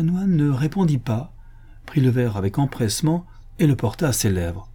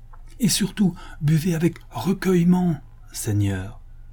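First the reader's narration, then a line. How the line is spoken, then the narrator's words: Exclaimed. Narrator (French): s'écria Pablo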